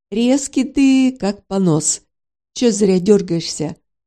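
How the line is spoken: Deep bass voice. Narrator (Russian): пробасил малыш

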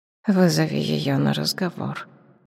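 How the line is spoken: Quiet command. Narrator (Russian): тихо приказала Шапсет

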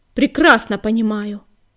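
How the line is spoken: Snapping. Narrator (Russian): огрызнулся Огнегриф

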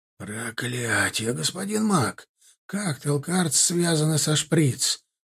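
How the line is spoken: Hissed. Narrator (Russian): прошипел Милар

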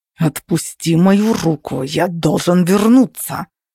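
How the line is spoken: Growling. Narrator (Russian): зарычал он

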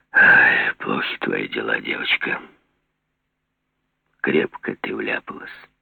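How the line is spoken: Very tender, lover-like. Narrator (Russian): И совсем нежно, как настоящий влюбленный, Жеглов сказал Мане

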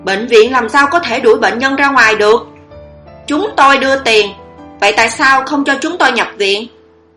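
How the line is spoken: Man angry shout. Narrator (Vietnamese): Người đàn ông tức giận hét lên

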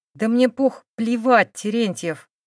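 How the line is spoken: Restrained anger through teeth. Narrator (Russian): процедила сквозь зубы, стараясь не взорваться

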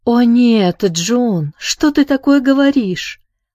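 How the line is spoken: Exclaimed. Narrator (Russian): воскликнула она

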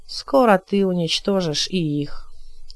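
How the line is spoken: Even-voiced remark. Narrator (Russian): ровным голосом заметил Алькасар

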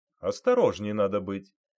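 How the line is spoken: Stern. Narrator (Russian): строго сказал милиционер

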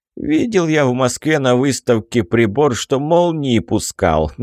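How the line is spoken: Laughing general. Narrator (Russian): засмеялся генерал

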